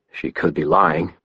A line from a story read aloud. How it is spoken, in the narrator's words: grunted